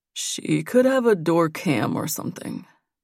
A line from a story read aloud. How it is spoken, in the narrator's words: Nate said in a low voice